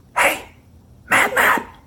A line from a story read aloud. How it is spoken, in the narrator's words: a whispered